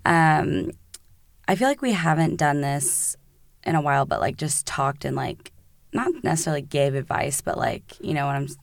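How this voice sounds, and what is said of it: Hoarse, nearly gone voice. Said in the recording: “my voice is literally gone.”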